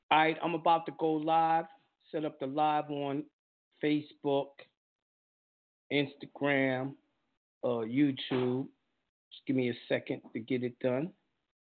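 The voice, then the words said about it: Slightly raspy voice. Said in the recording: “Save my voice. A little raspy right now.”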